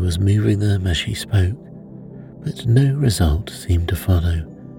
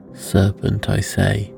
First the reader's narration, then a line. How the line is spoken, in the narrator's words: repeated the pigeon, but in a more subdued tone, and added with a kind of sob